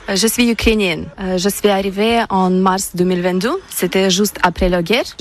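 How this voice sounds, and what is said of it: Ukrainian accent speaking French. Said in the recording (French): “vous avez un très joli accent”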